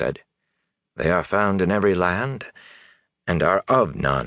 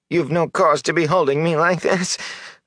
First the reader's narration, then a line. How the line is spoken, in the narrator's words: the filthy man whined